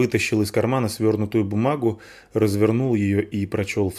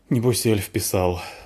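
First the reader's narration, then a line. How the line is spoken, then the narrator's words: Sighing. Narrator (Russian): вздохнул Полчик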